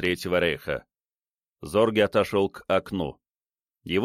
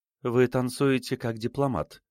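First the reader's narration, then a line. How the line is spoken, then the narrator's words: Sudden light tone. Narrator (Russian): вдруг заметила она легким тоном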